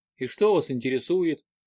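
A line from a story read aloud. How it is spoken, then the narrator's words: Dull, lifeless voice. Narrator (Russian): спросил Норман потухшим голосом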